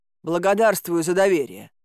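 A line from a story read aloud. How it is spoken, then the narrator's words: Grumbling. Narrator (Russian): буркнула я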